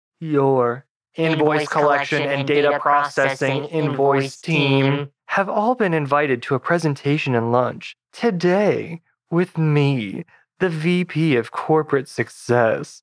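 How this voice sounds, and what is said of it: Distinctly different character voice. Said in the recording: “in a distinctly different voice,”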